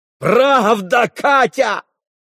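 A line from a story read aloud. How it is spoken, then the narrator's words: Sudden yell. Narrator (Russian): завопил вдруг Митя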